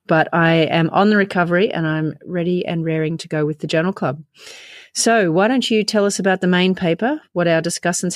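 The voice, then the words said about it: Voice sounds ill, under the weather. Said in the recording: “I've been unwell, as you can possibly detect from the podcast voice not being what I'd like”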